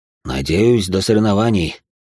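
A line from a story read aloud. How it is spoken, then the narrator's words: Sighing general. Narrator (Russian): вздохнул генерал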